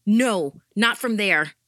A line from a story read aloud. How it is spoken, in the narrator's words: I shouted into the phone